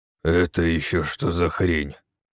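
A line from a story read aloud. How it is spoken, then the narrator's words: Grumbling. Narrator (Russian): проворчал Бевга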